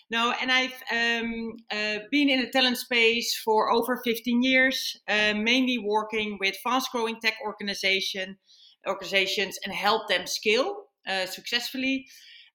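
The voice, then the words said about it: Dutch-accented English. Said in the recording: “I'm Dutch, as everyone can hear. I never lost the accent.”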